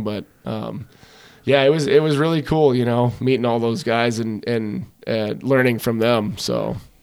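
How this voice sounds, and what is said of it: Wisconsin accent. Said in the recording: “my accent was pretty thick yet. It's still kind of there. You know, I still got a pretty decent ... Wisconsin ... accent”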